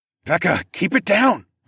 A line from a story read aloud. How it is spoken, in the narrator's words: I started to hiss